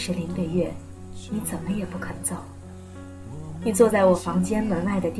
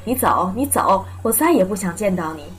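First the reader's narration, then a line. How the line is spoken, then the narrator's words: Loud yelling. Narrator (Chinese): 我对你大声吼着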